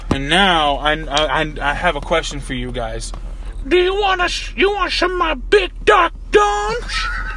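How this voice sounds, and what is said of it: Old grandma character voice. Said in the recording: “grandma voice ... that's my new grandma voice that I'm working on, my new impression”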